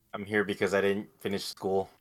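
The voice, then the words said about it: Sad-sounding voice. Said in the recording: “do you sound so sad”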